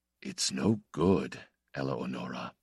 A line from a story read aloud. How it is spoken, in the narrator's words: he said more softly